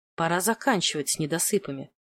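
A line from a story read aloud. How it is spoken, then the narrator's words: Muttered. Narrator (Russian): пробормотала я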